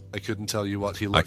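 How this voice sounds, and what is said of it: Speaks with an English accent. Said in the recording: “Why are you talking that way?... Why is it doing that to your voice?... I don't know why it makes me English.”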